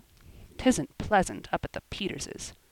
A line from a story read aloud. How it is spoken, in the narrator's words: grumbled Joel